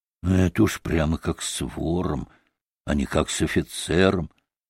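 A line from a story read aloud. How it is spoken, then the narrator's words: Muttered to himself. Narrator (Russian): проворчал он про себя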